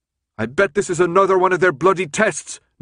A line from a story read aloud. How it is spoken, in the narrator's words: Newt yelled